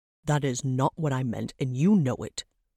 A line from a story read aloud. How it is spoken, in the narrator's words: Trevok said through gritted teeth